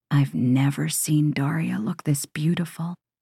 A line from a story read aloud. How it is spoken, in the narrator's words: Samson whispers